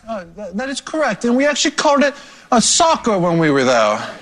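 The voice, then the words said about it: Put-on London accent. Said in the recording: “What's that accent? ... What's going on with that accent? ... Oh, that's my London accent.”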